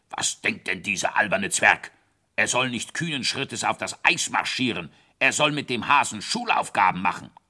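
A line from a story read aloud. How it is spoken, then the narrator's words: Grumbling king. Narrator (German): Der König brummte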